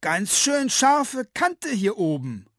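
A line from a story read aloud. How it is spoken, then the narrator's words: Calling down. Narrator (German): ruft sie hinunter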